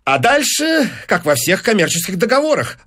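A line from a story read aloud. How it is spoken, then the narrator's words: Rapid chatter. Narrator (Russian): затараторил Файнс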